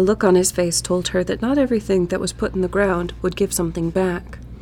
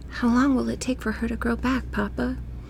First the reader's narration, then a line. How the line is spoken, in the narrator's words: Corinne had whispered